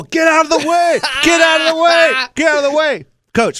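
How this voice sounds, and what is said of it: Yelling. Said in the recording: “I'm yelling”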